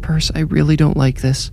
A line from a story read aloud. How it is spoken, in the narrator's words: Brandy whimpered